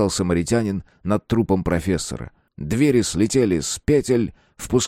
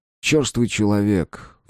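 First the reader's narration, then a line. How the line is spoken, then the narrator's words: Sigh. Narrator (Russian): вздохнул Коля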